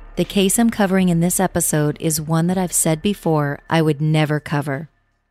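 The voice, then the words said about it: Slightly unwell, funky-sounding voice. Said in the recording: “I'm a little under the weather, so if my voice sounds a little funky”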